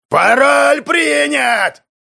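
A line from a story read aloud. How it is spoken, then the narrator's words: Thundering voice. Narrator (Russian): Снова прогремел голос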